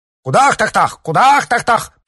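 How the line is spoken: Shouting. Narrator (Russian): прокричал он

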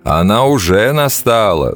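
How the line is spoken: Laughing. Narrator (Russian): засмеялся лебедь

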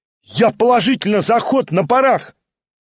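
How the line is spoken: Schoolboy's delighted shout. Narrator (Russian): крикнул в восторге гимназист

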